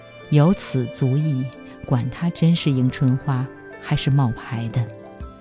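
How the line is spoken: Sighing exclamation. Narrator (Chinese): 王晨感叹

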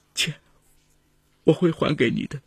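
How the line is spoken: Choked sobbing. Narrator (Chinese): 她哽咽着说

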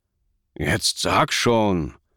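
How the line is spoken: Hissing through teeth. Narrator (German): zischte Hassan zwischen den Zähnen hervor

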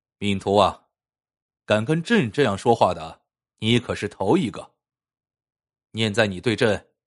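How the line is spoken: Furious, stern. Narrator (Chinese): 乾隆气得不行，厉声道

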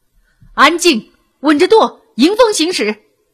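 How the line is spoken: Chorus of shouts. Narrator (Chinese): 船舰上发出了一片喊声

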